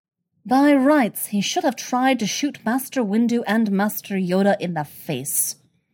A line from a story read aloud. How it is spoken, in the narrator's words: Jocasta says grimly